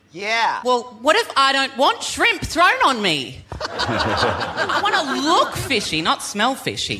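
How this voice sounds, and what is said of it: Australian accent. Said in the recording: “from down under ... as you may have all gathered from my accent ... I'm from Australia”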